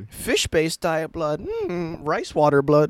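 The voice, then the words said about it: Mosquito character voice. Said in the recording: “my impersonation of a Brazilian mosquito eating a Japanese person”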